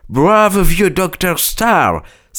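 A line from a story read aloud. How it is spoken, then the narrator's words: Exclamation. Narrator (French): s'exclama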